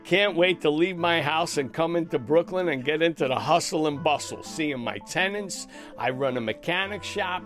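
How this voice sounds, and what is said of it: New York accent, fast talker. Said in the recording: “if you couldn't tell by his accent, ... a true New Yorker ... he talks fast”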